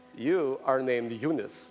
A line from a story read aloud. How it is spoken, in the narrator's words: my father said